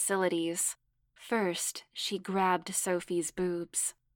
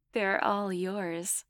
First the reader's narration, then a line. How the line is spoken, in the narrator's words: Sophie said with a chuckle